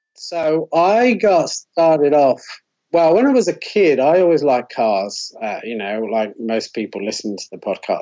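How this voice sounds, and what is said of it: Monotone Bristolian British accent. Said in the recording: “my monotone Bristolian British accent”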